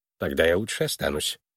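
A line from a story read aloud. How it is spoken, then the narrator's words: Mumbled. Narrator (Russian): пробормотал Твисл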